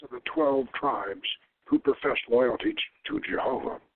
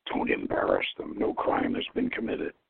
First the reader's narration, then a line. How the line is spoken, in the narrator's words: From beside him, Ahud mutters